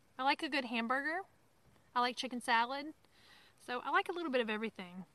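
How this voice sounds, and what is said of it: Southern American accent. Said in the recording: “You have a southern accent. I'm sure I do. ... when I come back from the south, it comes out a little bit more. So I do have a southern accent”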